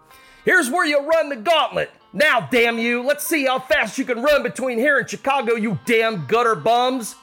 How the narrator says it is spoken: A big man called out loudly

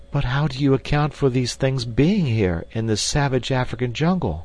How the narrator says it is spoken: exclaimed the girl

